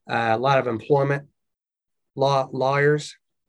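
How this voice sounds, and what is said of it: Southern accent. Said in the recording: “That was my Southern accent right there.”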